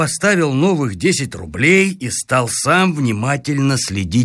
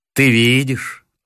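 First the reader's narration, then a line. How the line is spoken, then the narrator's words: Tender. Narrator (Russian): ласково сказал он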